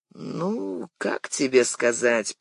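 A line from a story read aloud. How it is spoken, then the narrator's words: Drawl. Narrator (Russian): протянул Шаулов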